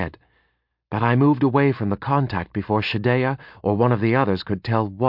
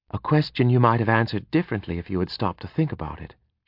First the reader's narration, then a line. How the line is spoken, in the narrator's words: she said quietly